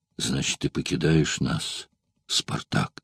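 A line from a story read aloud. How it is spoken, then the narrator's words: Soft, warm. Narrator (Russian): стараясь не задеть товарища, сказал мягко и сердечно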